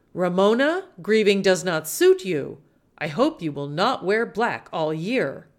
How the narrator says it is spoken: A little too loudly, Tio Luis said

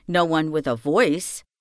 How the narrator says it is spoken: said the prince

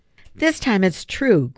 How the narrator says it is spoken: Griffin exclaimed

